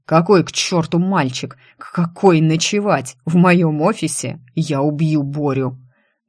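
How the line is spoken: Menacing, through teeth. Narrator (Russian): Последнее он процедил зловеще

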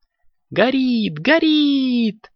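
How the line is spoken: Joyful excited exclaim. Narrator (Russian): радостно запрыгал коржик

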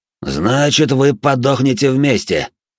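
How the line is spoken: Archdemon roaring. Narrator (Russian): Проревел архидемон

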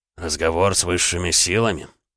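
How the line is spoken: Dry inquiry. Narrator (Russian): сухо поинтересовался он

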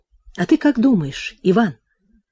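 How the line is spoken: Trembling voice. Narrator (Russian): дрожащим голосом спросил

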